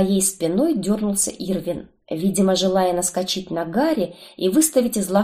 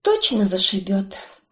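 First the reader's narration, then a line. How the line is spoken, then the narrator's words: Sighing. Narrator (Russian): вздохнула я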